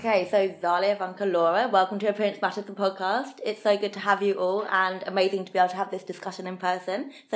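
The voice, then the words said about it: Slightly croaky voice. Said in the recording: “my voice is a little on the croaky side this morning”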